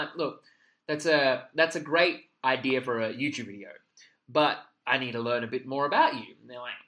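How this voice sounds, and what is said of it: Usual voice. Nothing is said of it.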